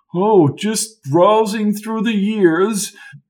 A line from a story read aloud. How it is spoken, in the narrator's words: he said in a whimsical voice